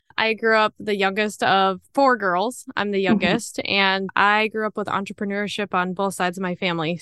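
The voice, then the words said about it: Slight Minnesotan Canadian accent. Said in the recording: “a little bit of like a Minnesotan Canadian accent”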